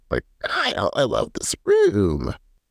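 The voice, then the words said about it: Imitated voice sounding like old witch. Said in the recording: “an impersonation of every housewife ... It's coming out like as an old witch”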